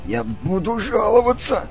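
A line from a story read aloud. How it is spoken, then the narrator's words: Strained wheeze while struggling. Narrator (Russian): прохрипел Ивор, тщетно пытаясь освободиться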